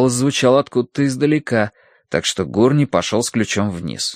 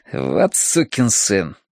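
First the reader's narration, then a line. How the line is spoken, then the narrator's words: Muttered. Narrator (Russian): пробормотал он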